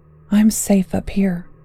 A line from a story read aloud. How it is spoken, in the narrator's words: Skye murmured to herself